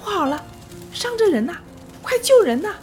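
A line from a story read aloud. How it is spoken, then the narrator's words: Child shouting. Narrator (Chinese): 一个小孩站在旁边大喊着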